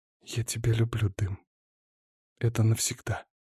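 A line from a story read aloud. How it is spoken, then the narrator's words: Whisper. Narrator (Russian): Алиса прошептала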